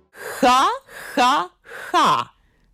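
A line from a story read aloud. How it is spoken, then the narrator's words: Forced laughter. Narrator (Russian): Матильда деланно расхохоталась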